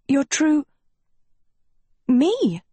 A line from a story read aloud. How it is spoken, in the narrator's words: Sophie stammered